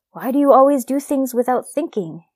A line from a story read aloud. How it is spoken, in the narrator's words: his mother's voice, yelling